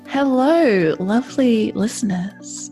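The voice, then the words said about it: Late-night radio host voice. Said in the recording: “I feel like I'm on a late night radio chat show now. What was that voice?”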